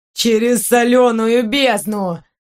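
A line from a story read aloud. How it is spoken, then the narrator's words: Boy's moan. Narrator (Russian): простонал мальчишка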